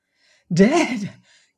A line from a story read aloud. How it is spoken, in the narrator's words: gasped Ming, shrinking